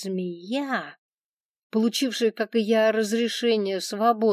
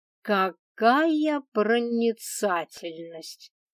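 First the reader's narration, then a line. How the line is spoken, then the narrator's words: Sarcastic drawl. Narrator (Russian): Ехидно протянула я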